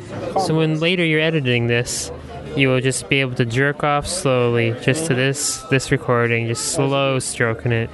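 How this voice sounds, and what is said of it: Soft, pleasing intimate voice. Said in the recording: “I'm going to talk to you in a pleasing voice to your ear.”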